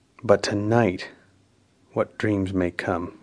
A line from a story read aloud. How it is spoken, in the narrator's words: he muttered